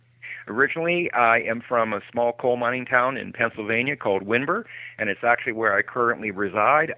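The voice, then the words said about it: Pennsylvania regional accent. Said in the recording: “I can tell by your accent that you are not from New Jersey”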